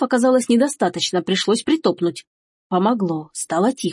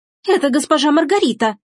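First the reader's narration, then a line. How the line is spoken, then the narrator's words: Shrill squeal. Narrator (Russian): взвизгнула Эжени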